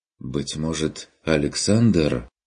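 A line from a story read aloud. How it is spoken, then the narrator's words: Suggesting. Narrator (Russian): предположил фон Эббенхольц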